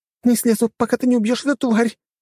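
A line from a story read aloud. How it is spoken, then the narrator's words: Frightened babbling. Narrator (Russian): пролепетала она, зажмурившись от страха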